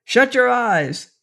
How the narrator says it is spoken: Seaton yelled

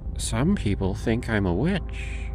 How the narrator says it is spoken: she said, her voice a low murmur

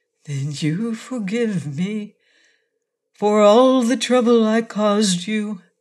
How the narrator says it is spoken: asked earnestly

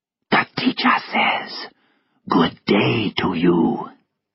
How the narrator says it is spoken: he whispered

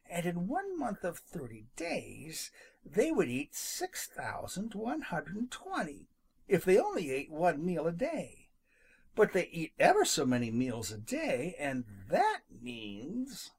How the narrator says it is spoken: he muttered

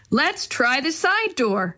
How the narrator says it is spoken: Maria shouted

